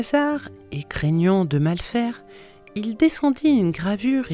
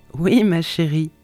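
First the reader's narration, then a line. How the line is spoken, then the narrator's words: Plain. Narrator (French): dit-il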